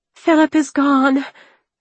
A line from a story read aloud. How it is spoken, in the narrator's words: Anna cried